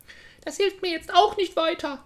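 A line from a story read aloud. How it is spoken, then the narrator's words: Sobbing, crying bitterly. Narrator (German): schluchzte sie und weinte bitterlich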